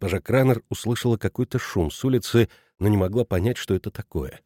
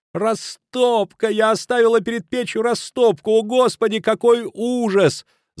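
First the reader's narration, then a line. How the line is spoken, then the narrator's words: Shouting. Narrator (Russian): закричала она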